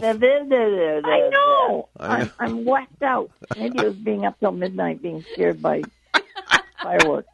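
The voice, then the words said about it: Hoarse, failing voice. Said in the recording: “My throat, my voice is going, so I can't do my own sound effects today.”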